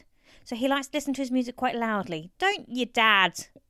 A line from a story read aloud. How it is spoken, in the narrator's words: she said, raising her voice